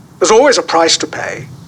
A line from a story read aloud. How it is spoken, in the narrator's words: the doctor replied, rather harshly